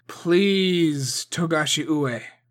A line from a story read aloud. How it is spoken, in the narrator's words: Masahige said in the strongest voice he could muster